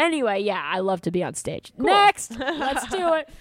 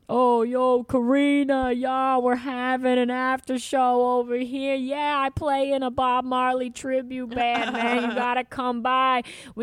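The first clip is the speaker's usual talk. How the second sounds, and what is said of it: Imitates another person's voice. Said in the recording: “I don't know who I'm imitating except for just about everybody who's ever been like, you got to come over and we're having a blah, blah, blah.”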